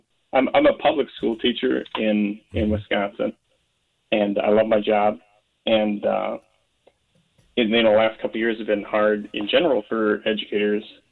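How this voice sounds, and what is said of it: Emotional, choked-up voice. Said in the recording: “I'm a little bit emotional.”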